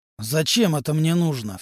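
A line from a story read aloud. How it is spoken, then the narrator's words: Sharp-toned question. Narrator (Russian): все тем же резким тоном спросил Амулу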